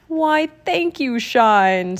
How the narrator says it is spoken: said a booming, jolly voice

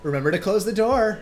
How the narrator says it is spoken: her mother shouted

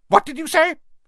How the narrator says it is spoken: his aunt snapped through the door

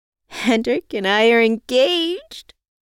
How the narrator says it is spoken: I squealed out

